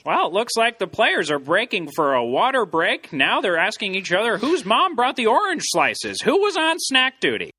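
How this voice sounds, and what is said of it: Imitates a sports announcer's voice. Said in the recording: “great Doc Emrick impression... Doc Emrick calling a World Cup goal”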